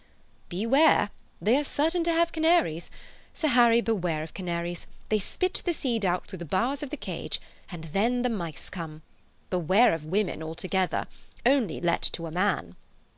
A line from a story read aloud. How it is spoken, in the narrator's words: Honeychurch exclaimed